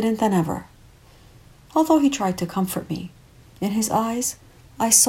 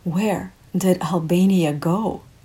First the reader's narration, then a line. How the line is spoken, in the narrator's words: I asked Alberto